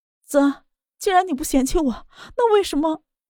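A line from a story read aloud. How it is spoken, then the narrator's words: Tearful crying woman. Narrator (Chinese): 莫雨涵的眼睛哭得红红的，哭着道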